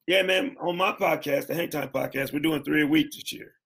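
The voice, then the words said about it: Hoarse, worn-out voice. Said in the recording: “my voice is shot. I'm drinking tea all the time”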